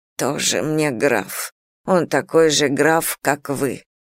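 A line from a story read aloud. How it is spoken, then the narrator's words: Grumbling. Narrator (Russian): продолжала ворчать Кросби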